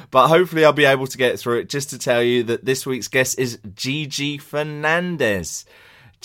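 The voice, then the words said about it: Slightly throaty, hoarse voice. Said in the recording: “my voice is a little bit throaty for these links ... I'm one of those shouty centre-backs who can't stop shouting”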